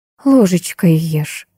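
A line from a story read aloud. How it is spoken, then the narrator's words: Tender. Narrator (Russian): нежно говорила старшая Крылова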